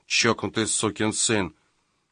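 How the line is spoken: Muttering. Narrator (Russian): бормоча

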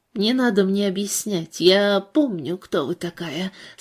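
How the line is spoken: Sleepy voice. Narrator (Russian): сонным голосом ответила Макгрудер

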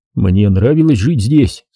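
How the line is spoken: Plain. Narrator (Russian): сказал я

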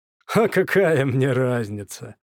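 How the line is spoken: Forced insincere laughter. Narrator (Russian): ответил Петя и неискренне расхохотался

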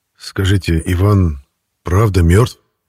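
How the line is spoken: Hoarse wheeze. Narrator (Russian): прохрипел

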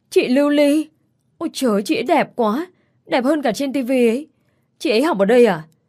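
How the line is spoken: Excited girls squealing. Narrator (Vietnamese): Mấy đứa con gái hú hét

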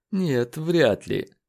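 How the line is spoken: Sighing. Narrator (Russian): вздохнул Леджер

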